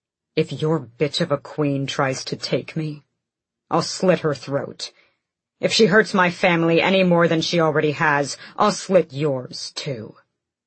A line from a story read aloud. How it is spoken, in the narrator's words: Adian growled